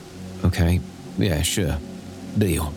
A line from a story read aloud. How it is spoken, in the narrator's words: sighed